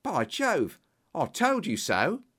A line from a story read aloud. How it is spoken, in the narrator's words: cried Pycroft